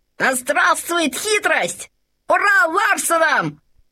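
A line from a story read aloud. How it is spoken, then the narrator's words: Shouting. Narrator (Russian): закричал Лабан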